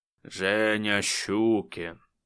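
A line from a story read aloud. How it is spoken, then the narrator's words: Growled. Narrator (Russian): прорычал он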